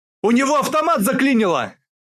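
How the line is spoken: All-out yell. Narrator (Russian): Со всей дури выкрикнул Аслан

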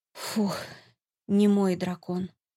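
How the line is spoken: Relieved sigh. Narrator (Russian): облегченно вздохнула

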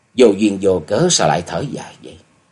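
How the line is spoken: Said with a slight smile. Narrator (Vietnamese): Nhậm Xuân Bạch hơi mỉm cười rồi nói

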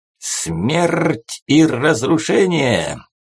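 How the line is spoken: Terrifying growl. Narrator (Russian): страшным голосом прорычал Четко

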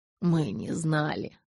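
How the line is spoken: Barely audible. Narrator (Russian): едва слышно произнес он

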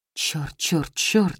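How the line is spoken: Muttering. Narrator (Russian): бормочет он

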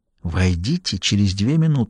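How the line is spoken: Whisper. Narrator (Russian): шепнул Даффи

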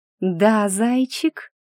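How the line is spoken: Cooing through teeth. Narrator (Russian): проворковала я сквозь зубы

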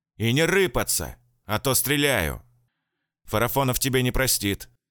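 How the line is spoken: Angry. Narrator (Russian): сказал я сердито

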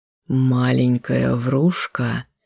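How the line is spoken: Low hoarse whisper. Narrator (Russian): Низкий хриплый шепот

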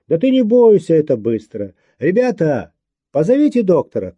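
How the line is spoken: Shout down corridor. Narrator (Russian): крикнул в коридор Женя

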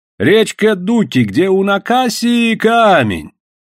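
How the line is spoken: Long thin drawl. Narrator (Russian): протянул Иван так же длинно и тонко, как старик, когда здоровался

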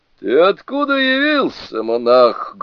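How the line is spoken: Menacing question. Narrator (Russian): грозно спросил дух

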